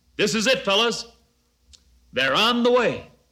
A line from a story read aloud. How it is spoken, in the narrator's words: he shouted to the four